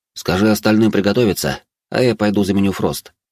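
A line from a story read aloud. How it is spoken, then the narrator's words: Calm. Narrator (Russian): спокойно сказал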